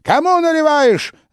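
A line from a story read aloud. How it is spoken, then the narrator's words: Yelling. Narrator (Russian): заорала она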